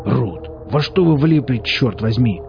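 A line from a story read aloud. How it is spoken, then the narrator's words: Growl. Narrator (Russian): рыкнул Велес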